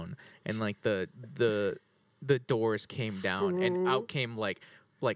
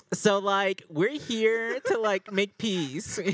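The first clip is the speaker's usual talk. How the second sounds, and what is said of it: Valley Girl accent. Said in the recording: “they talk in up. English, just everything sounds like that, like the Valley Girl. Accent.”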